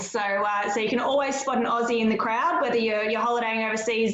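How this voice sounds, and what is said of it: Australian accent. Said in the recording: “my voice sounds a little bit ochre, if you will, but it's fairly normal for me here down in Australia”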